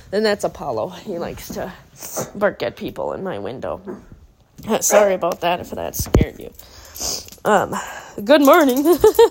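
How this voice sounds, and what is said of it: Scratchy, hoarse voice. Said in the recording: “Sorry about my voice. My voice is a little scratchy. ... Mainly just because I'm having a cough.”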